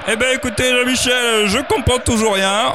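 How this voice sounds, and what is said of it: Put-on southern French accent. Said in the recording (French): “j'ai un accent du sud”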